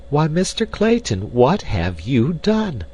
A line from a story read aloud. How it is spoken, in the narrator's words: cried Jane Porter, her heart sinking within her as she realized the probable size of the expenditure that had been made